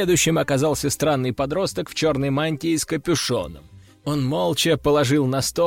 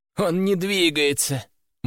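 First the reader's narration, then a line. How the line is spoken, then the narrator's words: Gloomy teenage voice. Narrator (Russian): мрачно сообщил подросток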